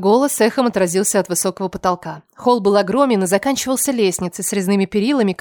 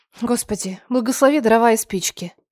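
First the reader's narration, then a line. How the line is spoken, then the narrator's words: Pained moan. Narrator (Russian): Простонала я, чувствуя, как кровь начинает возвращаться в конечности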